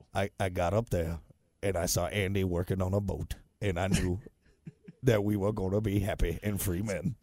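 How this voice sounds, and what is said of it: Badly imitated film character voice. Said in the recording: “That's a terrible impression.”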